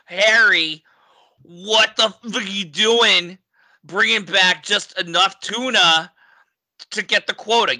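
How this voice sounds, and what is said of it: Put-on New York accent. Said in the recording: “you're starting to go New York, man. ... I am going New York.”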